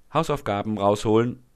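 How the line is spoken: Instructing. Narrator (German): fordert sie die Kinder auf und fügt mit strenger Stimme hinzu

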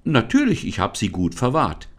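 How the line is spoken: Called out. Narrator (German): rief Lisa

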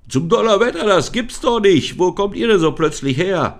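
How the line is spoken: Startled exclamation. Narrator (German): rief er erschrocken aus

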